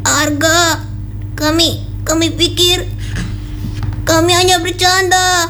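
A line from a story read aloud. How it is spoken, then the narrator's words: Trembling voice. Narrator (Indonesian): Dengan suara bergetar, ia berkata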